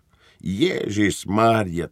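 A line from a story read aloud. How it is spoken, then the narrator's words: Soft sigh. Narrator (Ukrainian): тихенько зітхнув капрал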